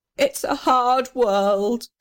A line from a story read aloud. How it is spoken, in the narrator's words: sobbed the little red house